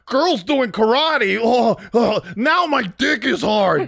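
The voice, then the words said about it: Imitates another person's voice. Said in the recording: “my impression of you ... very tonal. You have a very tonal horny.”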